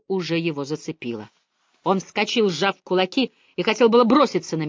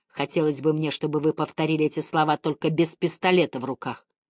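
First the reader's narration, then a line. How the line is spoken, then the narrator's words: Quiet. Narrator (Russian): Он тихо сказал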